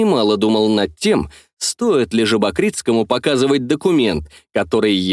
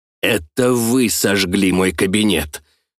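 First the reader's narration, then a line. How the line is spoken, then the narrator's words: Hissed. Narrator (Russian): прошипел Жабокритский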